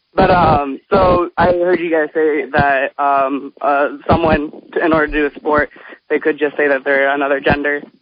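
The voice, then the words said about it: Out of breath while talking. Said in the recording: “out of breath,... I'm on my way to class”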